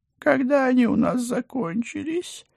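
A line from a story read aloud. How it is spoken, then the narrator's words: Anguished howl. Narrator (Russian): страдальчески взвыл Пусик, падая на колени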